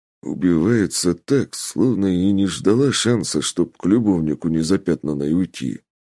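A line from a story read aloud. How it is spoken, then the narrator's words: Giant grumbling. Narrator (Russian): Ворчал великан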